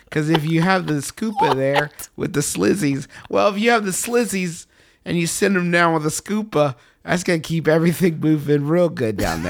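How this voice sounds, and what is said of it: Old-movie side character voice. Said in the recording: “talking like a tertiary character from an Indiana Jones movie”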